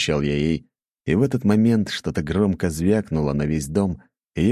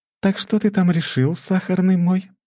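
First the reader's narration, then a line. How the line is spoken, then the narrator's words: Cooing. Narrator (Russian): проворковала Лакримоза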